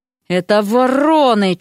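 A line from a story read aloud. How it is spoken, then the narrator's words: Almost growling. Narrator (Russian): чуть не зарычала Вася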